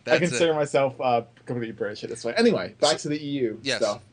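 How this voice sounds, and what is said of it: Slight Canadian accent mixed with British. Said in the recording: “A little bit of a Canadian accent... a little bit of a Canadian accent, but there is some UK there, too”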